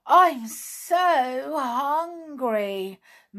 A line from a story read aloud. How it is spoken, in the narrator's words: moaned Sheila